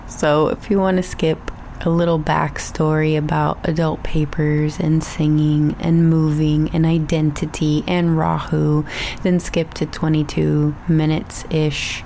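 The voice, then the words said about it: Mild Texan accent. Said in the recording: “my Texas accent is slowly coming on back”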